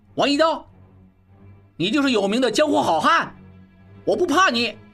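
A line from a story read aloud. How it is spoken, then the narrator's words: Sudden desperate shout. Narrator (Chinese): 小栓忽然拼命大喊道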